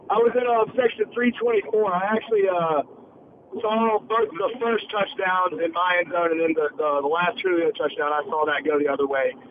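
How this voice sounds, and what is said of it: Hoarse, nearly lost voice. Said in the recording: “my voice is totally gone”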